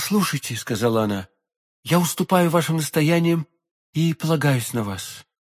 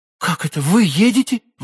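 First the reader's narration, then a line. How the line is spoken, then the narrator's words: Exclaiming. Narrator (Russian): воскликнула госпожа Бонасье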